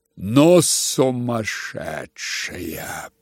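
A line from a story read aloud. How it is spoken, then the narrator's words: Muttered. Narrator (Russian): пробормотала Лизавета Прокофьевна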